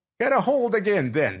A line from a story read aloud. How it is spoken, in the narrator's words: said Captain Gannington irritably